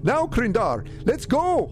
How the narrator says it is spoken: Singe yelled

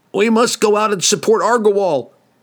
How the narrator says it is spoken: Glensather yelled at Cassius

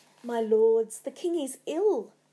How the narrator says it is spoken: Lady Macbeth said desperately

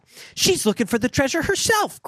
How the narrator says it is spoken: cried Joe

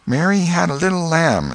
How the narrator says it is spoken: A little shame-faced girl lisped

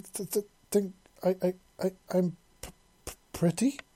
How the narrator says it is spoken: He exclaimed and stammered

